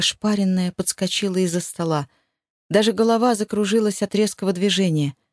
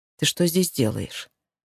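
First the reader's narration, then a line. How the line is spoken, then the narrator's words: Calm, tired question. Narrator (Russian): спросил он спокойно и устало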